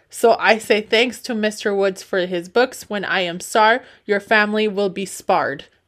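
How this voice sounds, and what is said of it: Put-on foreign accent. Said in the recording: “I like how you said that all in an accent.”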